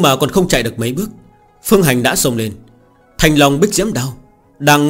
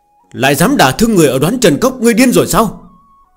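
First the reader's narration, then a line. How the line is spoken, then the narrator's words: Frightened clamoring shouts. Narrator (Vietnamese): Mấy người cùng với Trúc Thử quan hệ tương đối thân thiết, rối rít gào thét, ánh mắt hoảng sợ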